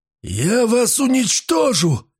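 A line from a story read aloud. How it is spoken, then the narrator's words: Shouting. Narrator (Russian): закричал он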